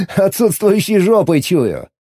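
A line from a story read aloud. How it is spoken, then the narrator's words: Laughing. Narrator (Russian): Засмеялся я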